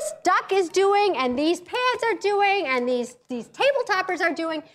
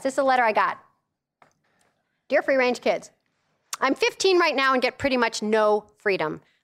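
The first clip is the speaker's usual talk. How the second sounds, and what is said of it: Reading very fast. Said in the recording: “I'm gonna read it really fast.”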